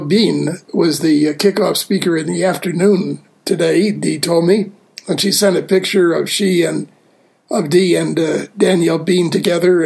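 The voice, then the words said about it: Congested voice from a cold. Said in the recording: “You may be able to tell from my voice that I'm struggling with a cold”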